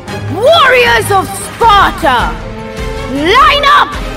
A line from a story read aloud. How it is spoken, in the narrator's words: He shouted